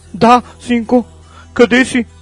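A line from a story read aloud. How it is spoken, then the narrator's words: Terrified trembling scream. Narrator (Bulgarian): Стреперещ от всепоглъщащия страх глас, изкрещяла в слушалката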